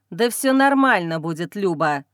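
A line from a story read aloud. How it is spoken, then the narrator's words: Irritated, dismissive. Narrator (Russian): раздраженно отмахивается от меня любимый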